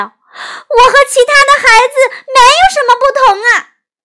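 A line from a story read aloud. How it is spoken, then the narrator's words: Loud shout. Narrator (Chinese): 玛吉特大声的喊道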